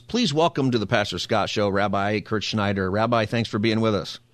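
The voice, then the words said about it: Polished radio announcer voice. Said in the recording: “You got a great radio voice there”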